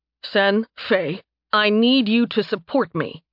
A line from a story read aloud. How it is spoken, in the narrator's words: he snapped